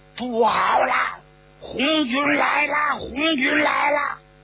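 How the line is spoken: Loud shout. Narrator (Chinese): 有人高喊

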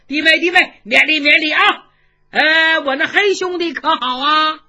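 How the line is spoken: Hearty laughter. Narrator (Chinese): 程咬金哈哈大笑

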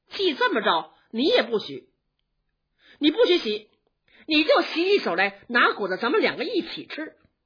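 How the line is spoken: Laughing. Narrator (Chinese): 宝玉笑着说

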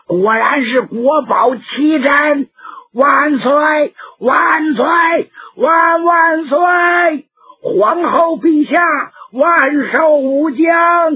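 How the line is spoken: Crowd straining shout. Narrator (Chinese): 都扯着脖子喊

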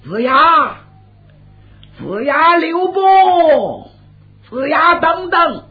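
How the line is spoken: Calling out. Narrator (Chinese): 身后有人喊他

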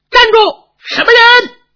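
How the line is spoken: Shouting while chasing. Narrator (Chinese): 边喊边追

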